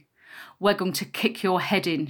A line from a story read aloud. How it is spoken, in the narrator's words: she hissed, her spit showering me